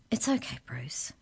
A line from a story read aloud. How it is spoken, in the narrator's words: murmured Arthur, trying to soothe his troubled bird